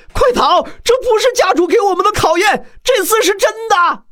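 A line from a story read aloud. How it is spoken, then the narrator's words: Crowd shouting in alarm. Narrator (Chinese): 后知后觉的众人顿时大喊道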